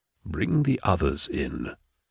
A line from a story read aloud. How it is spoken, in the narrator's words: Cyrus whispered to him